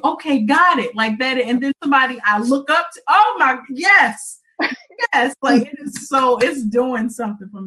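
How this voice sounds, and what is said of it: Excited loud yelling. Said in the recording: “That's probably why I'm yelling.”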